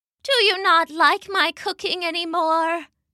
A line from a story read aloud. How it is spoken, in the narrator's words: Mama asked sadly